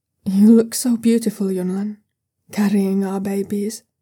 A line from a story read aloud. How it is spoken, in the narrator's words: tells him softly